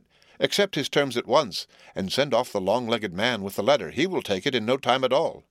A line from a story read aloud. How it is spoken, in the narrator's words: cried the hermit